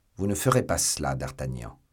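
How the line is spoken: Said coldly. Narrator (French): dit froidement Athos

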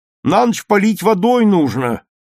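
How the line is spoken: Loud. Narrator (Russian): громко сказал

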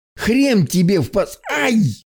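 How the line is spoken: Yelping, hit in nose. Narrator (Russian): завопил Марк, получив удар в нос

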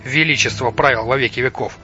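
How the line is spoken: Snort. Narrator (Russian): Лотар хмыкнул

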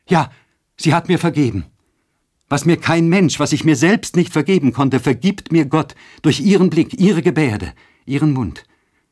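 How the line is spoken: Joyful exclamation. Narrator (German): rief mit heiliger Freude

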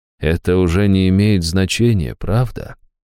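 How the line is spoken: Soft. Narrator (Russian): мягко проговорил он

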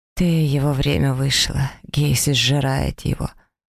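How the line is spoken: Strangled voice. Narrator (Russian): сдавленным голосом произносит Рискарь

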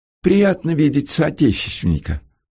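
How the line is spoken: Lisping, smiling. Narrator (Russian): прошепелявил офицер, улыбаясь

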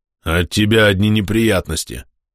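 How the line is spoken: Displeased grumble. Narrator (Russian): проворчал недовольный Херсир

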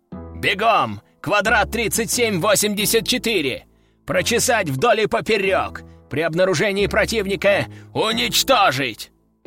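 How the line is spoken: Growled command. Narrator (Russian): рыкнул он

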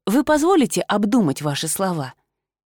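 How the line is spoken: Quiet. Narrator (Russian): тихо обратилась я к принцу

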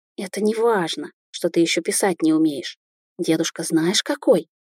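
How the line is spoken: Quiet whisper. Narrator (Russian): тихо прошептала

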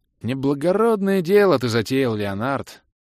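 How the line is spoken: Mournful sigh. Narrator (Russian): Скорбно вздохнул я

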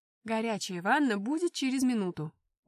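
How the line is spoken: Loud announcement. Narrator (Russian): громко сообщила

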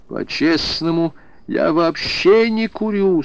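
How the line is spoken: Moaning. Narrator (Russian): стонал

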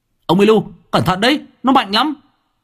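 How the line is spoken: Shouting. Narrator (Vietnamese): Tôi hét lên

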